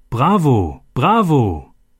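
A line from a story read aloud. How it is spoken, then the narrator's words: Calling out. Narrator (German): jemand rief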